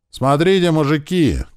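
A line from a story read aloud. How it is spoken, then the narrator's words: Shouted from platform. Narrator (Russian): крикнул кто-то из платформы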